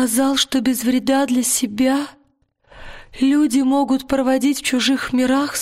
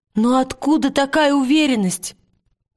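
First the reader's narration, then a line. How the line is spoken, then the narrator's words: Exclaiming. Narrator (Russian): воскликнула Лира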